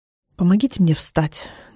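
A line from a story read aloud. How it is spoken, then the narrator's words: Tired speech. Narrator (Russian): говорю устало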